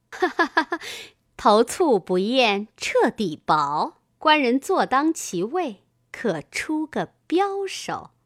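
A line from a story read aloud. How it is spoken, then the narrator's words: Laughing. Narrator (Chinese): 白秀英笑道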